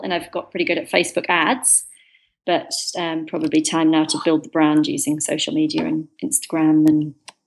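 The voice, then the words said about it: British English accent. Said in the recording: “From your accent, you sound British, English.”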